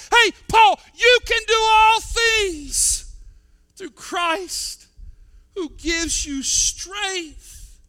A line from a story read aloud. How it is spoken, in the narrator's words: the Holy Spirit within him reminded him and shouted out in his soul